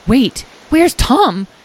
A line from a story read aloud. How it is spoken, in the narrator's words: Edwin exclaimed